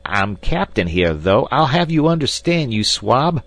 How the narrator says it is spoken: shrieked Snipes with a volley of frightful oaths

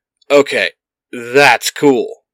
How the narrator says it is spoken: Billy shouts

